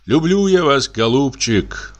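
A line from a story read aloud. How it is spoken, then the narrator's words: Sighing. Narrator (Russian): вздохнул Павел Иванович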